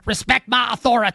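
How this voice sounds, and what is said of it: Cartman cartoon character impression. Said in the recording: “a good Cartman impersonation”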